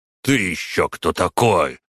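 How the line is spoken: Said through gritted teeth. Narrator (Russian): процедил враг

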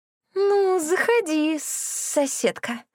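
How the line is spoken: Creature's hiss. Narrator (Russian): прошипело это создание

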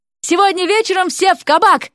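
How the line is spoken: Parting shout. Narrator (Russian): крикнул напоследок Уилл

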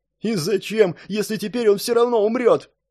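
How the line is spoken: Sobbing. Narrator (Russian): всхлипнул Орсон

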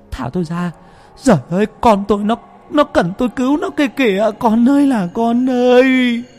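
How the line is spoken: Anguished mother's wailing. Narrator (Vietnamese): Người mẹ thương con gào thét quằn quại

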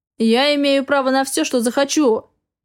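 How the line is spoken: Loud barking. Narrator (Russian): гаркнул он

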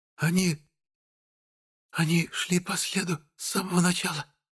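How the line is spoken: Barely audible whisper. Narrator (Russian): еле слышно прошептала Беляна

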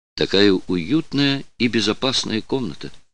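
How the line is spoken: Plain. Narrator (Russian): сказала она

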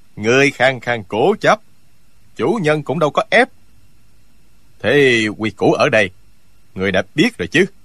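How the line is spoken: Cold male voice. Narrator (Vietnamese): Giọng một hán tử lạnh lùng nói

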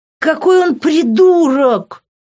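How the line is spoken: Yell. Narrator (Russian): заорала я

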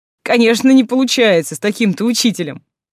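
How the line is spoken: Chuckling. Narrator (Russian): хохотнул Деймос

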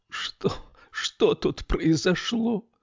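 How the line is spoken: Moaning. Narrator (Russian): простонала Камилла

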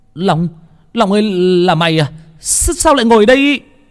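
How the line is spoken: Boy shouting from above. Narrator (Vietnamese): tiếng của thằng Phong ở trên hét lên

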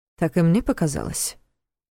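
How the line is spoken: Gloomy. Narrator (Russian): мрачно кивнул Войтых

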